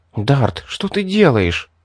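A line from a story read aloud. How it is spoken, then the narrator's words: Indignant whisper. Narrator (Russian): Ребекка возмущенно прошептала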